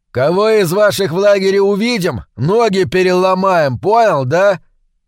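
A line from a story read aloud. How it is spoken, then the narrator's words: Shouted threat. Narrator (Russian): крикнул он цыганёнку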